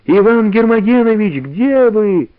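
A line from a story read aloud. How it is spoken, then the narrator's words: Shout. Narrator (Russian): закричала Валя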